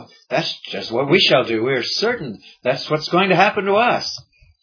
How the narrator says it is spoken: they exclaim

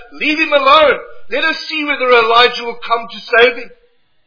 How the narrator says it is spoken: some of the spectators around the cross cried out

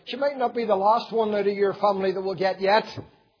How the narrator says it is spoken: I shouted after her

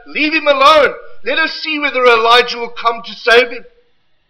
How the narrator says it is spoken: some of the spectators around the cross cried out

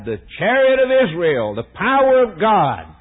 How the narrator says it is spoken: the young prophet cried

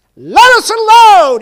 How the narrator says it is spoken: he screams out

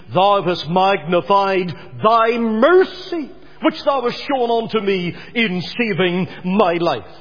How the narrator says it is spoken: And Lot cries out in Genesis 19 and 19

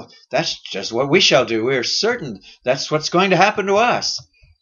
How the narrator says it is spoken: they exclaim

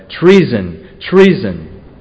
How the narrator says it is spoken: Athaliah cried

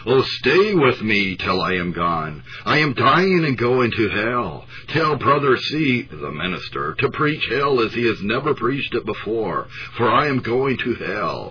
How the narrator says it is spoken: the dying woman with eyes of terror she exclaimed

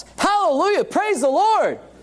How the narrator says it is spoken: all of a sudden he shouts

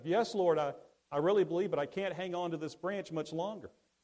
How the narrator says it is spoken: he yelled back up

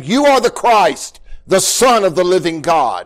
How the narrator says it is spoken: Peter exclaimed

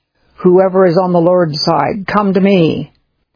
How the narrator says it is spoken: Moses called out

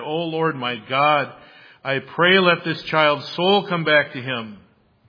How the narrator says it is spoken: cried out to the Lord and said

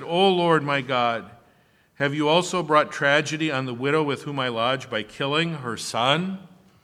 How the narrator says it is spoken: he cried out to the Lord and said

